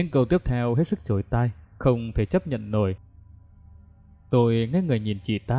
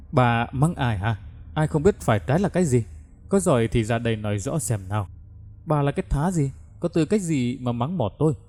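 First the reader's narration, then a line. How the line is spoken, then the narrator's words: Shrill shrewish shriek. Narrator (Vietnamese): Đồng Tú Lệ lại lên cơn, rít lên rất đành đá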